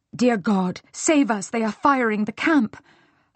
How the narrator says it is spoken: her nurse gasped

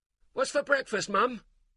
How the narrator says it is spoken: Tyler called out

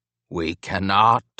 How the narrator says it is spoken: rasped

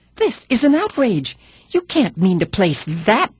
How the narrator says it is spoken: indignantly

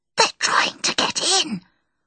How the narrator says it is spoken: Harvey whispered

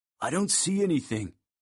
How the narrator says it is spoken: said in a low voice, nervously

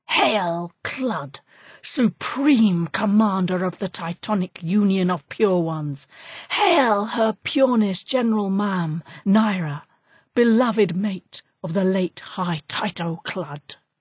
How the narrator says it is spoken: the hatchling shrieked

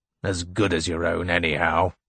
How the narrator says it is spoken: growled the constable

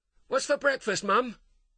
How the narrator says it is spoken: Tyler called out

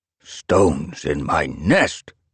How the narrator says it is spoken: an elder croaked irritably

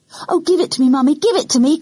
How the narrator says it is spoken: cried Janet

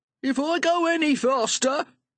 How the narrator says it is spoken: shouted

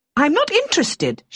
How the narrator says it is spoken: she cried, her voice sharp with shock

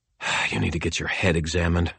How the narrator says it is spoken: I muttered to myself

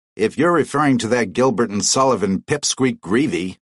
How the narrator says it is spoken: snapped his father

